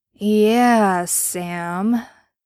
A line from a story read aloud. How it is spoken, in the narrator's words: he drawled slowly